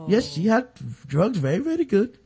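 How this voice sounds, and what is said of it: Put-on Indian accent. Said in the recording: “using a false name and an Indian accent”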